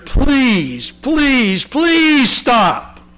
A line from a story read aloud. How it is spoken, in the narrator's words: I cried out